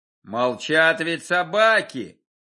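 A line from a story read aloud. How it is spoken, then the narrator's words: Shouting. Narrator (Russian): закричал Стрельцов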